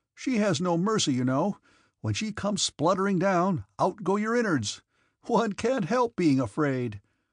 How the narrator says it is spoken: he said, laughing

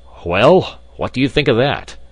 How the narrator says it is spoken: cried the professor, with an air of triumph

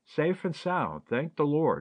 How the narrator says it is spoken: exclaimed Charity happily

